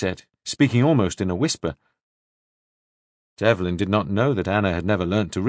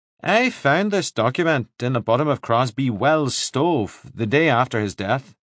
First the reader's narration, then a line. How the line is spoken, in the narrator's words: he said